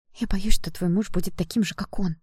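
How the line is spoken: Whisper. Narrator (Russian): прошептала я

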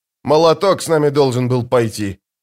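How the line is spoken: Grumble. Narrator (Russian): проворчал Бакланд

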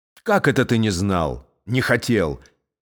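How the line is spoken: Sharp interruption. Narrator (Russian): резко прервал его император

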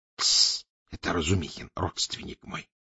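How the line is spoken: Whisper. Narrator (Russian): шепнул пристав помощнику

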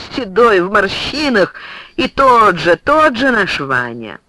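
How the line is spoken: Laughing through tears. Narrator (Russian): Николай Андреевич, утирая слезы, стал смеяться

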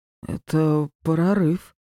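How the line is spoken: Strangely hoarse reply. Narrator (Russian): странно хриплым голосом ответил он

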